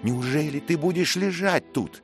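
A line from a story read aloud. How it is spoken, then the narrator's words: Shout. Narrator (Russian): крикнул Мэтчем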